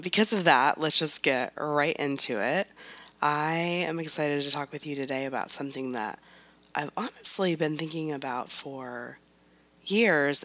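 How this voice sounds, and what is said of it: Sick, strained hoarse voice. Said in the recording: “why my voice sounds so amazing today, it's because, that's right, I'm still sick almost 3 weeks later. I actually thought I was losing my voice”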